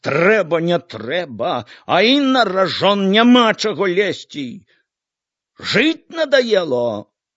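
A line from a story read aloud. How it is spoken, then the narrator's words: Shouting. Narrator (Belarusian): закрычаў Яўхіму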